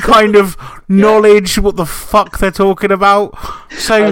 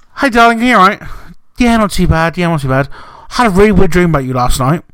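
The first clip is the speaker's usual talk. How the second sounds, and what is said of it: Imitates another person's voice. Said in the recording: “do an impression of Jay talking to you”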